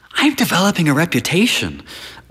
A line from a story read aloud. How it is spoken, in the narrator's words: whispers an affable man